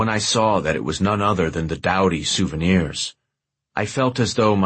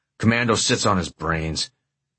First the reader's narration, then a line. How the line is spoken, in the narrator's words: growled